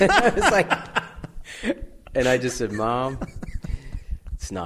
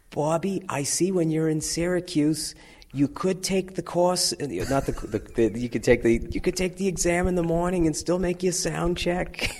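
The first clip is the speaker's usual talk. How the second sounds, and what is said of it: Put-on Boston accent. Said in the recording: “I'll do the Boston accent ... this Bostonian crackle”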